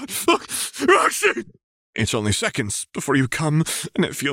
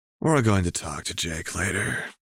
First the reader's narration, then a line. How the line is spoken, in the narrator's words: he murmurs in a low voice